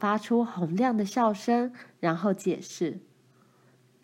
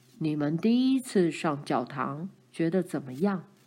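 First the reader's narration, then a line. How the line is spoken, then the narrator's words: Plain. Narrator (Chinese): 罗兰说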